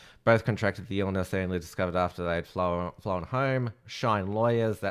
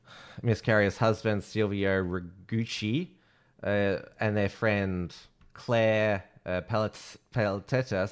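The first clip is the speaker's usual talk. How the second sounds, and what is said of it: Poor put-on French accent. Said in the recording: “That's a poor French accent by me.”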